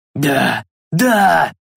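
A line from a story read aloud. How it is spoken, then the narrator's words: Ecstatic wail. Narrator (Russian): завопил Бальдр, словно испытывая неземное наслаждение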